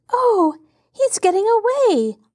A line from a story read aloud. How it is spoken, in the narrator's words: Laura cried anxiously